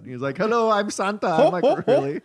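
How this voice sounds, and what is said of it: Put-on Indian accent. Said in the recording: “talks in an Indian accent”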